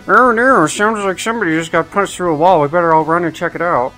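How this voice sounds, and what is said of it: Character voice of a tank mechanic. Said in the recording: “put on my best soldier voice ... Can I just sound like a mechanic or something in the tank”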